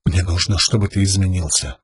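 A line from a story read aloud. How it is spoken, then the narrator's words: Whisper. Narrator (Russian): прошептала ему Шалан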